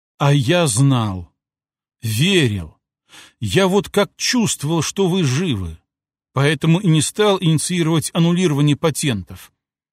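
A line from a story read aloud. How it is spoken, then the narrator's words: Old man, heartfelt after sigh. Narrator (Russian): Старый адвокат шумно вздохнул, после чего прочувственно произнес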